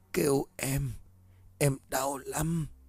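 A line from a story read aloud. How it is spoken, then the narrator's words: Helpless soft moaning. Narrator (Vietnamese): cô dường như bất lực … rên rỉ những tiếng nói khè khẽ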